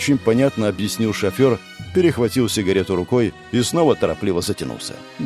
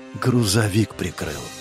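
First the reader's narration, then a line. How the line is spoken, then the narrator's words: Whisper. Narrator (Russian): прошептал Катари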